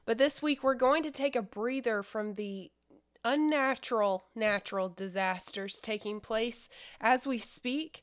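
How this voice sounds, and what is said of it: Slightly weird, congested voice. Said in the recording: “my voice sounds a little weird. I'm getting over a cold right now”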